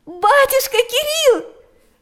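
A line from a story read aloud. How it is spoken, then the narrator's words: Exclamation. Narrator (Russian): воскликнула она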